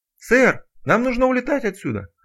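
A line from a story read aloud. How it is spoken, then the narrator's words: Yelling over rotor noise. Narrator (Russian): заорал парень, стараясь перекричать шум винтов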